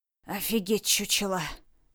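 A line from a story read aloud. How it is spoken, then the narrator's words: Low hoarse voice. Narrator (Russian): низким хрипатым голосом озвучил свои мысли он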